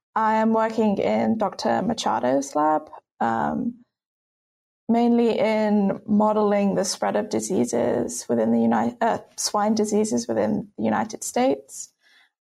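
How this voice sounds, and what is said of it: British accent. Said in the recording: “As you can tell from my accent, I'm not from the US. I'm actually British.”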